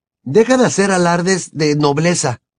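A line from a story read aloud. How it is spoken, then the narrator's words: Irritated exclamation. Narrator (Spanish): exclamó Harry irritado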